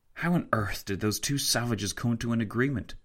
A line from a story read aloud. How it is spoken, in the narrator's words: Tancred whispered to Fitzwilliam